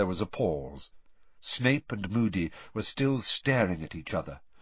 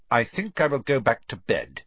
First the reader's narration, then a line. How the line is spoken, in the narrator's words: Snape said, curtly